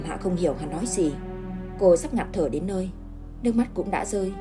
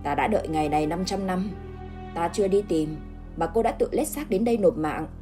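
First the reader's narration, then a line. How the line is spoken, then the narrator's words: Scornful sneering. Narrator (Vietnamese): Hắn cười khẩy mà nói, lời nói mang đầy sự khinh bỉ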